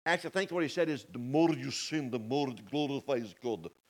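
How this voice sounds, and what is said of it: Bad put-on Russian accent. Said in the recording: “That was probably a bad Russian impersonation.”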